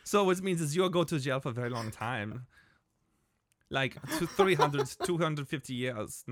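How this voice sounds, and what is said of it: Put-on German accent. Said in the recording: “I just went to a German ... accent.”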